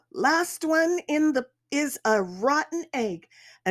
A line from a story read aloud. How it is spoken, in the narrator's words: Then we yell